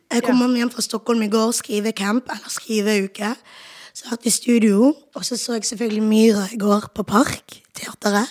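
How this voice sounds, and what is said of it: Hoarse voice. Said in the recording (Norwegian): “når stemmen min ikke tillater meg det ... Men stemmen er hes.”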